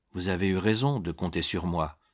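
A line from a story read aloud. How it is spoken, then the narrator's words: Almost affectionate tone. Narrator (French): répondit-il d'un ton presque affectueux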